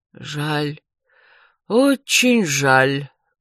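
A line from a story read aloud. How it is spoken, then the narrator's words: Sighing healer. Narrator (Russian): вздохнул лекарь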